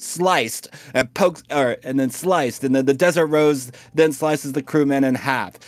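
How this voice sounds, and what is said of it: Usual voice. Nothing is said of it.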